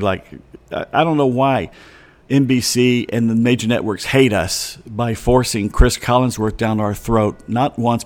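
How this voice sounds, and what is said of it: Slightly raspy voice. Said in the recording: “I can feel my voice getting a little raspy now”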